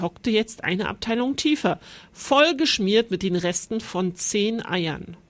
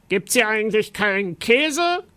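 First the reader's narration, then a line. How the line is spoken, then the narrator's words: Monster growling. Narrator (German): knurrte das Monster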